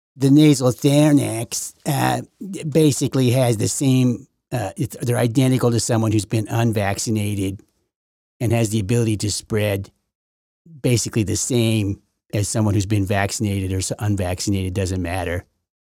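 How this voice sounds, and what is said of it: Deliberately bad impression of a man. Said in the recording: “It was a bad impression of him.”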